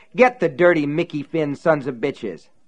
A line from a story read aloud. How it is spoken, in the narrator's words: someone shouted